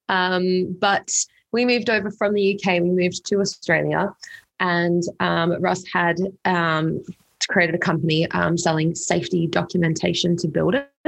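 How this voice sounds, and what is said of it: Australian accent. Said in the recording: “you've got way more British accent than me, but we're from England... it sort of slowly left my accent and I sound very Australian probably now”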